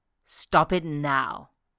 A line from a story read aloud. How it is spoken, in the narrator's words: he growled